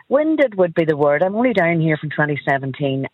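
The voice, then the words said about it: Irish accent, like Donegal. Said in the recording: “admire my accent and say, oh, we love your accent. ... you from Donegal”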